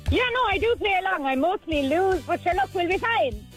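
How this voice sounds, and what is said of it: Strong Irish Tipperary accent, some Cork. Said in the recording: “where are you from with that twang? ... my twang is very bad, but I'm actually from Tipperary. ... I'm a bit of Cork thrown in there. ... The tip twang is very, very obvious”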